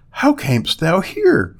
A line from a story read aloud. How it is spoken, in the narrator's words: gasped